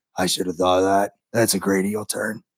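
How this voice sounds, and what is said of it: Poor imitation of another person's voice. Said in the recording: “that's a really shitty Triple H impersonator.”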